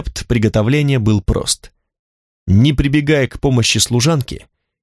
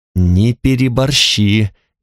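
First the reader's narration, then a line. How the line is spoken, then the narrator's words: Through gritted teeth. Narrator (Russian): говорила Танталь сквозь зубы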